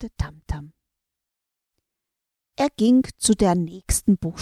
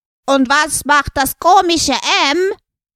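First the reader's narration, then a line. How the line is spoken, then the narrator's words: Loud question. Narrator (German): fragte ganz laut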